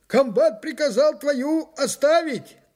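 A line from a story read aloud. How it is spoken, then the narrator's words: Hoarse sergeant shouting on the move. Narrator (Russian): крикнул мне на ходу осипший, как всегда, старшина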